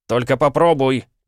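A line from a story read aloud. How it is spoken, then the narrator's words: Shout. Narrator (Russian): крикнул Пол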